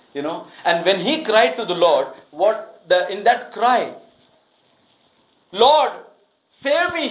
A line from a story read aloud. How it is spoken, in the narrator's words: he cried out